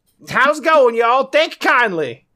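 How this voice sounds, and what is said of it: Hokey put-on Texas accent. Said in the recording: “he's got this hokey Texas accent.”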